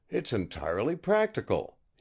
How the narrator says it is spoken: he exclaimed to himself

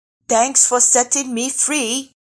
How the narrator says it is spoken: the rabbit yelled cheerfully

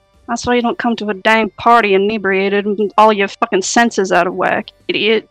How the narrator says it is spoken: mumbles to herself in a sneer

